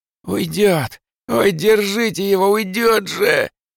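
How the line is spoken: Frantic wail. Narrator (Russian): Опять заполошно взвыл

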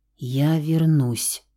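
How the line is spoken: Soft whisper. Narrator (Russian): тихо шепнул Рауль

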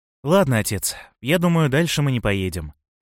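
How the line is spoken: Sly sighing. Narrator (Russian): вздохнул лукавый Машилов

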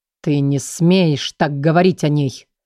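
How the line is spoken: Hissing into ear. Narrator (Russian): Прошипел он прямо ей в ухо

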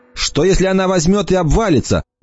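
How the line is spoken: Shout. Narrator (Russian): прокричала Эмма

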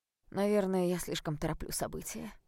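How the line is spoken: Mocking. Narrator (Russian): сказал он насмешливо

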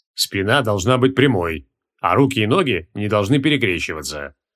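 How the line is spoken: Stern correction. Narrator (Russian): строго поправил ее Креол

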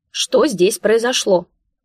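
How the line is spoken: Loud bark over noise. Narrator (Russian): Пытаясь их перекричать, гаркнула

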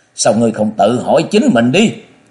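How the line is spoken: After a burst of laughter. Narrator (Vietnamese): Nam Cung Nhiễm ngửa mặt cười lớn một tràng rồi nói

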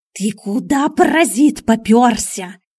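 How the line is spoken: Hissed. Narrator (Russian): шипел Миун на черныша

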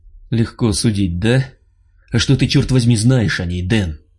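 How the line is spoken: Angry reply. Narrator (Russian): Зло ответил Миха

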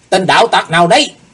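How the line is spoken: Two men shouting together. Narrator (Vietnamese): Hai tên cao thủ đồng quát lên

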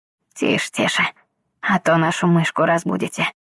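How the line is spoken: Quiet with a snort. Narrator (Russian): хмыкнул Элис, тихо ответил

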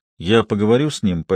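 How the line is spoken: Calm promise. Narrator (Russian): пообещал Ратлидж спокойно

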